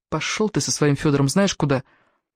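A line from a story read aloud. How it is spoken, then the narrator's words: Muttering. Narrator (Russian): Пробормотала она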